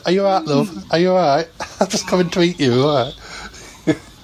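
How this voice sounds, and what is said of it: Bad put-on northern English accent. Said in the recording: “I did a bad northern accent for the dinosaur”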